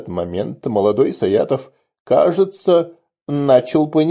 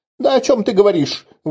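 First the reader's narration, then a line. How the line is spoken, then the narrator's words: Hysterical shriek. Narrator (Russian): в истерике взвизгнул молодой аристократ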